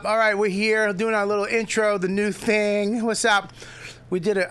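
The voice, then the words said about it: Out of breath, panting speech. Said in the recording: “out of breath”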